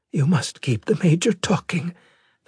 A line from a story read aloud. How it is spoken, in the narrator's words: the hollow image whispered